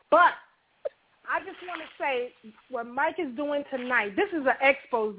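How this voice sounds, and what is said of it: Out of breath, panting. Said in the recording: “I had to run upstairs. Excuse me if I'm out of breath”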